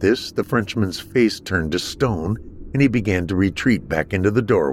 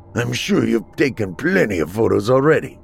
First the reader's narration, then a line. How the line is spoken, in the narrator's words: he spat